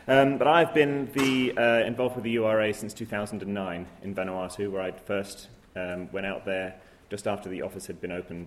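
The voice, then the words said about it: English accent. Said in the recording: “your Pacific flavour has got an English accent.”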